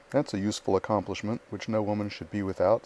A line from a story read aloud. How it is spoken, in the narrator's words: said Mrs